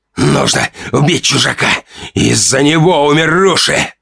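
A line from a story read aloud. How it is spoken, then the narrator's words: Strained hoarse wheeze. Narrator (Russian): хрипел Ранд, пытаясь поднять голову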